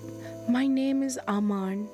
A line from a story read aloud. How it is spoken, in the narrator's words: he finally said